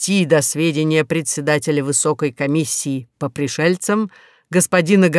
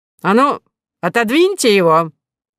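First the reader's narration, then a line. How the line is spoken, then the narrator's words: Barking. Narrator (Russian): рявкнул полковник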